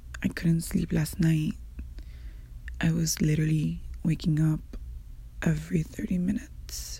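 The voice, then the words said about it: Raspy, tired voice. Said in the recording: “my voice is a little raspy.”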